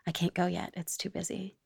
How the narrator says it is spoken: muttered very softly

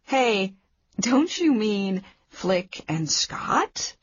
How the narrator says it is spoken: I laughed

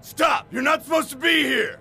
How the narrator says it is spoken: The security guard shouted

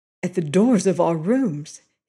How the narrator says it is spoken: he said hoarsely

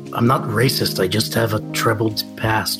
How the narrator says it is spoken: Venek will start murmuring

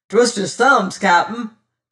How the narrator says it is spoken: cried

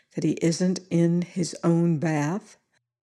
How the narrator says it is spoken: I said very quietly

